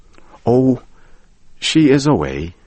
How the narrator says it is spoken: the man sighed

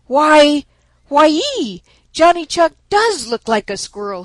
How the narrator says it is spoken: he exclaimed

